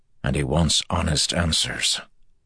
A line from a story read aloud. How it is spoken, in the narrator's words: Andral replied quietly